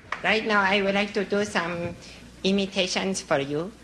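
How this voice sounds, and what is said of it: Andy Kaufman's bumbling foreign-accent character. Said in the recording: “Kaufman's favorite character, a bumbling comedian with a foreign accent.”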